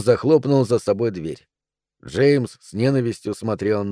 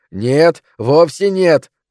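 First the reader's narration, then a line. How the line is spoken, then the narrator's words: Yelling. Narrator (Russian): орал он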